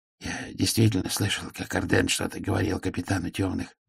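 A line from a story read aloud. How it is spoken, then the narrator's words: Muttered. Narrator (Russian): пробормотал Мудрошлем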